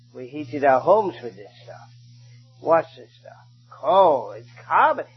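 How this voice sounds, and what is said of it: London English accent. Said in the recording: “you could tell from my accent, I originally came from London, England.”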